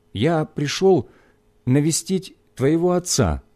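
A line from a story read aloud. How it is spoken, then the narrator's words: Timid. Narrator (Russian): сказал робко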